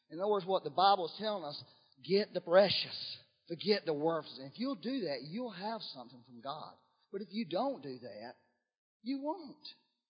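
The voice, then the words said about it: Preacher-like sermon delivery. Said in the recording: “I sound like a preacher this morning, don't I?”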